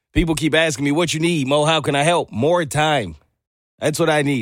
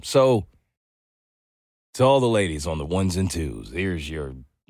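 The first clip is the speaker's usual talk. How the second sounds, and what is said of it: Deep late-night DJ voice. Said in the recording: “my voice is deeper because that's how tired I am ... like the late night DJ voice”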